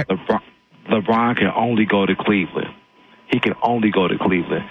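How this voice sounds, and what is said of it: Radio announcer voice. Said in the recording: “I hear your radio voice, man. Very nice.”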